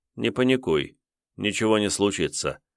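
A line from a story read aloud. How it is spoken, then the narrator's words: Calm assurance. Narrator (Russian): спокойно заявил жрец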